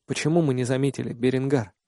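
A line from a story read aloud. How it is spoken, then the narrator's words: Quiet question. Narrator (Russian): спрашиваю тихо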